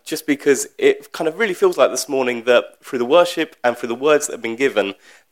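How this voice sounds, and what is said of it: Unsteady voice with a sore throat. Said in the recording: “Forgive me, first of all, my throat, my voice is going to be a little bit all over the shop this morning. I woke up in a bit of a cold yesterday”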